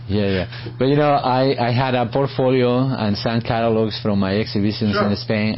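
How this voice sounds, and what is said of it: Noticeable foreign accent. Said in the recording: “With a big, big accent, right? Like, I still have an accent ... It was strong.”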